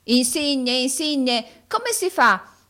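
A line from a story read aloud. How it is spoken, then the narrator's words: Shouted. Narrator (Italian): gridò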